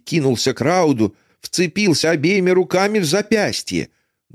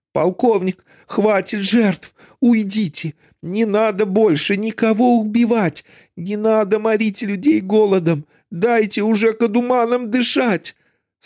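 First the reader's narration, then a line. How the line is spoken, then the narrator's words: Hateful words forced through teeth. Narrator (Russian): Скулы Весика свело от ненависти, челюсти сжались, и он выцеживал сквозь зубы слова в глупой надежде на чудо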